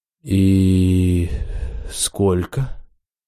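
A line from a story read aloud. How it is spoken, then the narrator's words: Uncertain question. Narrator (Russian): неуверенно спросил я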